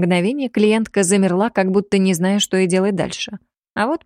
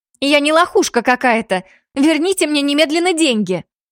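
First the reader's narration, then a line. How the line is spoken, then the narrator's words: Hysterical screaming. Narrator (Russian): Истерично орала она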